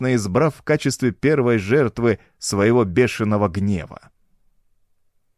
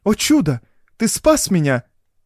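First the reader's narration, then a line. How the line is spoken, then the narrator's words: Exclaiming. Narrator (Russian): воскликнула Доротея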